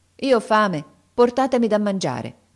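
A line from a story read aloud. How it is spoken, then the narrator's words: Firm reply. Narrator (Italian): Aladino rispose con tono fermo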